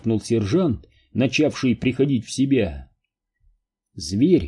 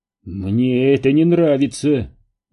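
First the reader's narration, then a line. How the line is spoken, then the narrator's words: Strangled grumble. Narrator (Russian): сдавленно проворчал Кейн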